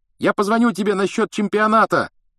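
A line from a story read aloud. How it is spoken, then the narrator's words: Calling after. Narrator (Russian): крикнул Рон вслед Гарри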